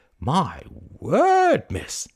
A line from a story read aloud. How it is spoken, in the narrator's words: he exclaimed